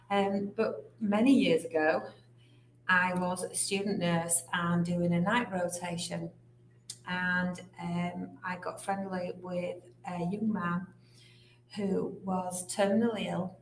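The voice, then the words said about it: English accent. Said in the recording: “as you can probably tell from the accent, in England.”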